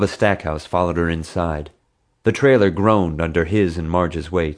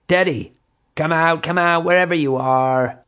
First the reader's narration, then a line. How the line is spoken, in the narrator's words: called out tauntingly